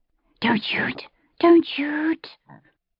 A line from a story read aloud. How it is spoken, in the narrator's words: The words were not shouted, but hissed, somewhere around the level of his knees